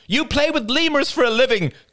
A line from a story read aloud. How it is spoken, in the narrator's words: cried Rachel